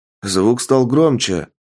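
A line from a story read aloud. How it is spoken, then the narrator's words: Wolf-man exclaiming. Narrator (Russian): воскликнул человек-волк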